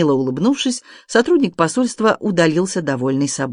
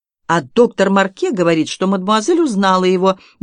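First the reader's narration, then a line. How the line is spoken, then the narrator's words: Snide retort. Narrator (Russian): ехидно вернул жестокосердный Серж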